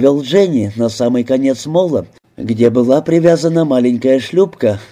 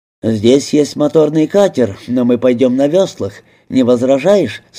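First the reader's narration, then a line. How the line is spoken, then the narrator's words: Plain. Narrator (Russian): спросил Пэтрик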